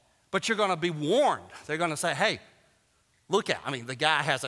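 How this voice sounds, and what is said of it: Usual voice. Nothing is said of it.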